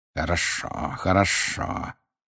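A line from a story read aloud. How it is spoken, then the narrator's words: Hissed. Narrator (Russian): прошипел снег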